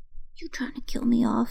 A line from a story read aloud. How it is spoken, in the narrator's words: he hissed